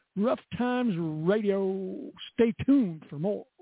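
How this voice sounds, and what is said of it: Put-on radio announcer voice. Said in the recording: “Got to get my radio voice.”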